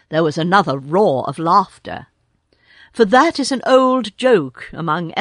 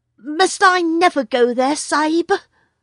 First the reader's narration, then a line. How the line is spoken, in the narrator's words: asked little Tumai with a big gasp